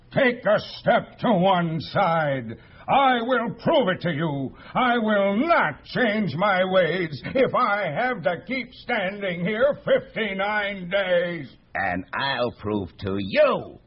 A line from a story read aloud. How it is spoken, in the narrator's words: yelled the south-going Zax